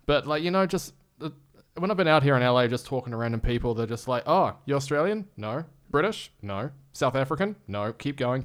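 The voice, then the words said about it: New Zealand accent, fairly monotone. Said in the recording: “I love the New Zealand accent is really rad ... It's just really just like, kind of just monotone”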